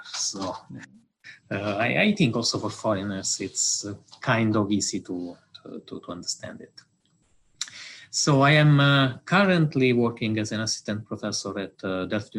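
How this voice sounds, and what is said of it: Clear Italian accent in English. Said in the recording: “I'm Italian, as it is probably easy to understand from my English accent. ... when we hear an Italian speaking in English, we understand instantly that he is Italian ... The accent is very, very clear.”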